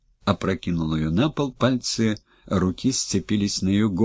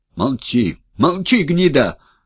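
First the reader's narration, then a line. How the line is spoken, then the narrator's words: Yelling. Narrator (Russian): заорал Коробов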